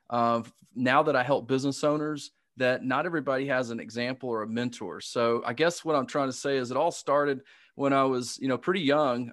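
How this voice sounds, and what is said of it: Southern American accent. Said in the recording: “as you can hear, I've got a Southern accent.”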